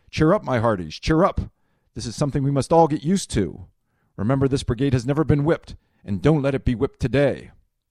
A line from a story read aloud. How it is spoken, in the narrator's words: In an effort to encourage them, Kimball shouted